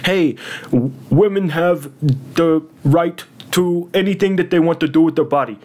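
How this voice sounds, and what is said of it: Poor Bernie Sanders impression. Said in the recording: “terrible Bernie impression”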